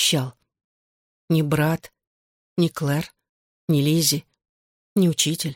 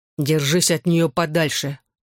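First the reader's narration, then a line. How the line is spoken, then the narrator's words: Threatening warning. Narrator (Russian): угрожающим тоном предупредил Джонни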